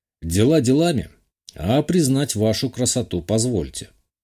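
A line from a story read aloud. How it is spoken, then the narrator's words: Calm reply. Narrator (Russian): спокойно ответил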